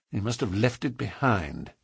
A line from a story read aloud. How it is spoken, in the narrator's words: muttered